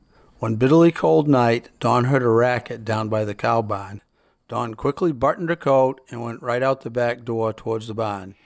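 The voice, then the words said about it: Yankee New England accent. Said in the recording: “the accent of New England ... that Yankee accent”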